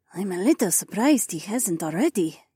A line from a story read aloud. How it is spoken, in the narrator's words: Sky murmured